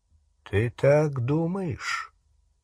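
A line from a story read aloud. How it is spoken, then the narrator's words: Slow speech. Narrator (Russian): медленно произнес Дамблдор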